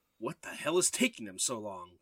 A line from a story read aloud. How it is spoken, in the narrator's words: Kyle growled angrily